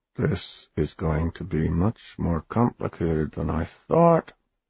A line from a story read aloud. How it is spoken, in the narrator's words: he muttered